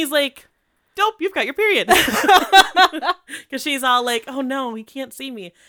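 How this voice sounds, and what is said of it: Usual voice. Nothing is said of it.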